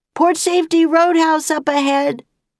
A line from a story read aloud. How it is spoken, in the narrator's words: he heard Annie shout